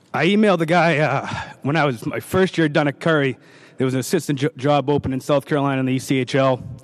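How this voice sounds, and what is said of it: Emotional, choked-up voice. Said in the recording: “sorry, I'm a little emotional because this just I wear it right on my sleeve”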